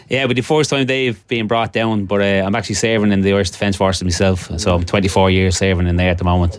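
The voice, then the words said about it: Irish Dublin accent. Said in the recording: “that's not a Gisala or an Erris accent at you? ... No, I'm originally from Dublin.”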